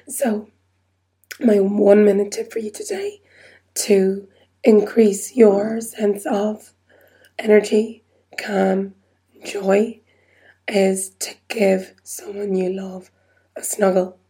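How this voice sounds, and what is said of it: Strained, squeaky, failing voice. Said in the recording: “My voice is just about hanging in there ... I might go back to my whisper ... because trying to speak is just really squeaky”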